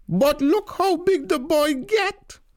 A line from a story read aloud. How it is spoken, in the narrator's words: Tanti bawl